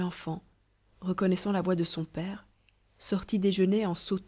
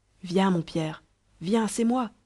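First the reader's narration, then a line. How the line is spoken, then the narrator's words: Farmer shouting while running. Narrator (French): s'écria le laboureur en courant après lui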